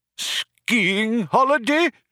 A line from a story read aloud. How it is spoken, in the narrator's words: cried the old man